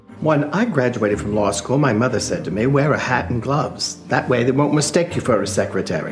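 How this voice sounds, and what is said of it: Pronounced Bronx accent. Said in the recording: “she has that Bronx accent. And I think Margot did it great. ... It's so pronounced in some scenes”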